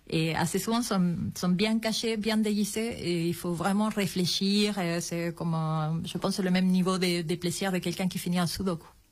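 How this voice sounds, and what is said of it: Slight Chilean accent in French. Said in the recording (French): “on entend un petit accent, vous êtes chilienne”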